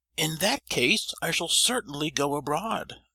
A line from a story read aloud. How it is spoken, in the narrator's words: cried the prince with animation